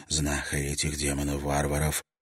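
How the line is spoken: Whispered reply. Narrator (Russian): прошептала в ответ Асам

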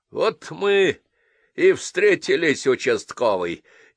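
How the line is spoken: Menacing low drone. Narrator (Russian): недобро прогудел старший

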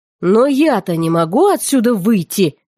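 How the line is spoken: Growling. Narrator (Russian): рыкнул он

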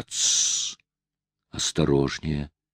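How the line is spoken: Whisper. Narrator (Russian): послышался шепот

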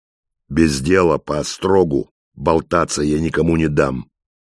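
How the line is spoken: Even voice. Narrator (Russian): ровным голосом продолжал Михаил

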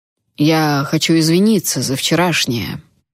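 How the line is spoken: Uncertain. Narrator (Russian): неуверенно произнес Эйден

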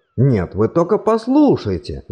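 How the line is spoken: Exclaiming professor. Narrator (Russian): воскликнул профессор современного руносложения

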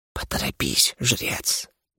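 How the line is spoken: Whispered. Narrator (Russian): прошептала она

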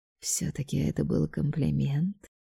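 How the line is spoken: Smiling whisper. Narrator (Russian): с легкой улыбкой прошептал он

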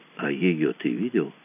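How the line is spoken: Quiet question. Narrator (Russian): спросил Мазур тихо

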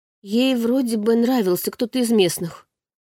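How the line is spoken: Uncertain telling. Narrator (Russian): поведала Маша неуверенно

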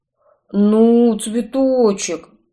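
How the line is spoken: Mumbled, sniffling. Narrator (Russian): промямлил он, шмыгая разбитым носом

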